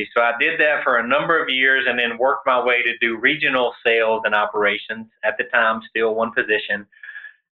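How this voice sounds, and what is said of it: Southern US accent. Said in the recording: “you can tell from the Southern accent, my roots are in the Southeast”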